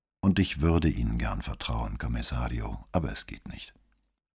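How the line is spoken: Tired reply after silence. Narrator (German): Nach einigem Schweigen antwortete Moro mit müder Stimme

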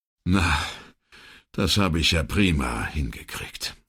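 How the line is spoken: Sighing. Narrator (German): seufzte Brunetti

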